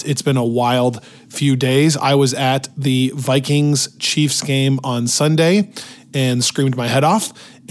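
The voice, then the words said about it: Hoarse, worn-out voice. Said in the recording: “my voice is entirely shot ... no voice whatsoever”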